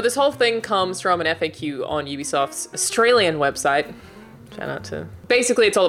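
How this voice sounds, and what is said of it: Usual voice. Nothing is said of it.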